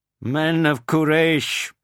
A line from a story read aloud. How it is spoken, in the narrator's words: shouted